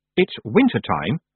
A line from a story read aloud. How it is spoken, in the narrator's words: she said coldly